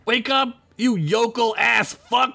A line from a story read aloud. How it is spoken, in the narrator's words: She yelled